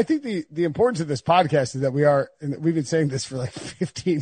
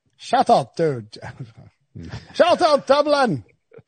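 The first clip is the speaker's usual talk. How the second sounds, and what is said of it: Put-on Irish accent. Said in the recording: “you have to do it in your Irish accent. ... That wasn't bad. ... That wasn't terrible. ... That was pretty good Irish accent.”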